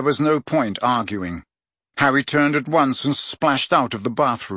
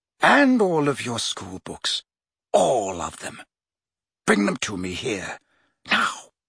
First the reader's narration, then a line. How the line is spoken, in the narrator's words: said Snape softly